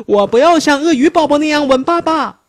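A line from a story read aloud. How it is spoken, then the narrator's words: Child crying out. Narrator (Chinese): 熊宝宝叫道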